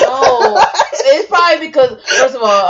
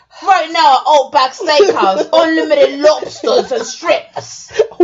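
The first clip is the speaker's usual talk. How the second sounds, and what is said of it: Put-on Australian accent. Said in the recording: “Why do you sound like Pete Dunne doing an Outback commercial? ... Australian accent is kind of hard to do”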